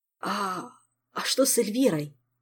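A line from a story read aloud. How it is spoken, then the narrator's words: Frightened pale jester. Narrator (Russian): испуганно уточнил побледневший и протрезвевший шут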